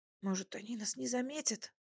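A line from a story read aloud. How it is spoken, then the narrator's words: Whisper. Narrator (Russian): все еще шепотом сказала я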